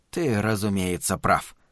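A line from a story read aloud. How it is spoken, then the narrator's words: Mumble. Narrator (Russian): пробормотал Глен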